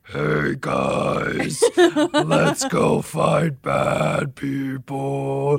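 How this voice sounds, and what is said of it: Imitated Galactus character voice. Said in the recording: “my Galactus impression... Galactus voice work”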